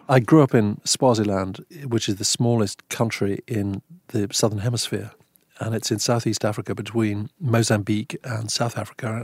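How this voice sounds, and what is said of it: Distinct English accent. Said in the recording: “You have obviously an English accent, but you have a distinct accent”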